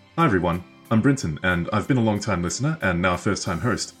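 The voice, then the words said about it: Australian English accent. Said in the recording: “I like your accent. ... I'm from Australia.”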